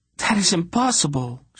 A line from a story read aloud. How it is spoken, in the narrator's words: blurted